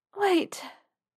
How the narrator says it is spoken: panted

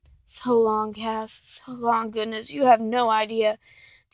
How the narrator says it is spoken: Dean murmurs

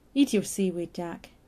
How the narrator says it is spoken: Stephen said gently

